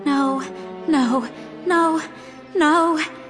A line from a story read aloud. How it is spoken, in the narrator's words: Carly Beth moaned by my side